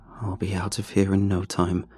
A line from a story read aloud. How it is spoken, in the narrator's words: I muttered to myself